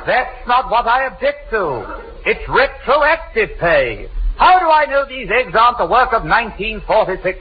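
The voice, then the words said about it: English accent. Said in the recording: “you speak with quite an accent, ain't it? ... Bedford, England.”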